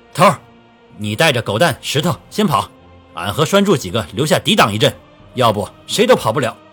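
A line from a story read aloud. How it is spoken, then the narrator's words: Shouting. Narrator (Chinese): 赵勇冲着卢向同喊道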